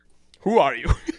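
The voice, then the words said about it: Attempted Russian accent. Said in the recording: “I can't do a Russian accent.”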